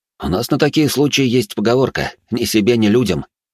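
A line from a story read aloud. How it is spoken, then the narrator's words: Smirking snort. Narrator (Russian): хмыкнул я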